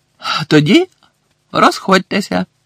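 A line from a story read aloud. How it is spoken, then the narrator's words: Joyful. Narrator (Ukrainian): радісно мовив Бегмен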